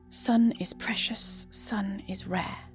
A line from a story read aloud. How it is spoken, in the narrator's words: whispers behind his mouth cover